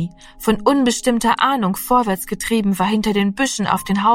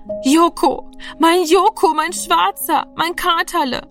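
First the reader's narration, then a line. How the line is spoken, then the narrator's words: Stammering. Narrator (German): stammelte Rami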